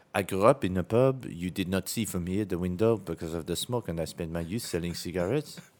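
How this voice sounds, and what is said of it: Put-on French accent. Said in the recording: “Do your French accent for me for this line.”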